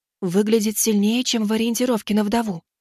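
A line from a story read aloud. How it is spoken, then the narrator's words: Whisper. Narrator (Russian): шепнула Сумми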